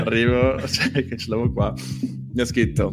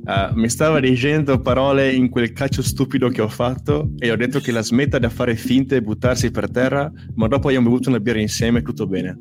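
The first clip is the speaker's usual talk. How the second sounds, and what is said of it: Put-on Argentine accent. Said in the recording (Italian): “con l'accento argentino”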